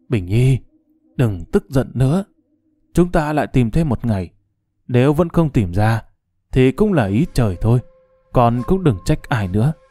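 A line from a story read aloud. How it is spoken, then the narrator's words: Sighing with faint smile. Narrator (Vietnamese): Bạch Tương Dao hơi lộ nụ cười nhạt, thở dài nói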